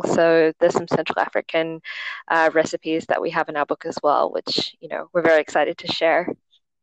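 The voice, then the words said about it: Australian accent. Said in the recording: “you sound Australian.”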